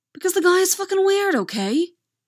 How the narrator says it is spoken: Thomas yells back

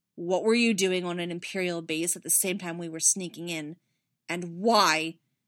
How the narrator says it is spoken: His face twisted into a snarl as he bit off the next words

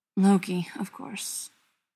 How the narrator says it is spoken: Thor mutters wearily

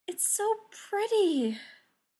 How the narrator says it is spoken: sighed

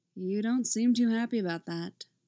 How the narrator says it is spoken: Phil just blandly observes

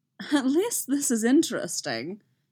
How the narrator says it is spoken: Obi-Wan laughs

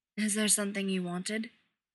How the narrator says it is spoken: John asks

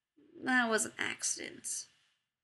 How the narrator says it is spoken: Jared murmurs miserably

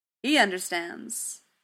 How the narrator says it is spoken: he said, rough and booming and proud

